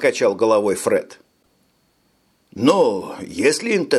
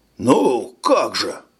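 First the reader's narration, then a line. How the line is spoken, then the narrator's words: Breathed out. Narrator (Russian): Майор выдохнул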